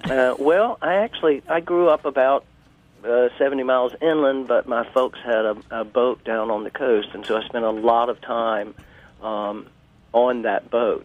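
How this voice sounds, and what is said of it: Southern Georgia accent. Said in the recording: “Your accent does tell. ... my accent is Georgia.”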